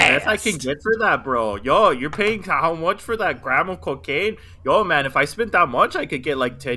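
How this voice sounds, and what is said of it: Usual voice. Nothing is said of it.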